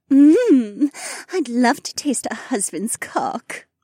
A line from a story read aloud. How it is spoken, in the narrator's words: Becca giggled